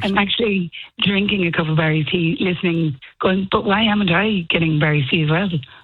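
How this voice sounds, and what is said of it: Hoarse voice. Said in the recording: “Are you a little bit hoarse? ... hoarse.”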